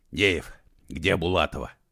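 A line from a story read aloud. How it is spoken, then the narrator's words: Hoarse question. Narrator (Russian): сипло спросил он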